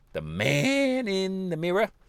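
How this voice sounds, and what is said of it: Imitates a famous singer's voice. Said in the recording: “Best Michael Jackson impression”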